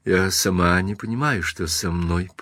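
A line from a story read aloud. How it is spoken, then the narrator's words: Rapid, muffled, suppressed agitation. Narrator (Russian): проговорила она скороговоркой, приглушенным голосом, с трудом подавляя волнение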